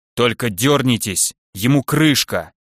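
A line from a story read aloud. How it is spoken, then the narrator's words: Growled. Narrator (Russian): прорычала Долгуната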